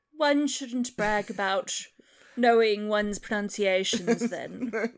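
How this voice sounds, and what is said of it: Put-on British accent, BBC-style. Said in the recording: “That was my best British accent ... You are such a BBC reader.”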